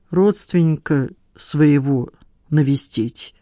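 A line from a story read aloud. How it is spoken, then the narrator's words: Visitor, strange lifeless voice. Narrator (Russian): ответил посетитель странным неживым голосом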